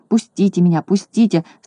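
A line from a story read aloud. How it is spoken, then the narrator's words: Delirious moaning. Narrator (Russian): стонал, разметавшись на своей постели, Козлик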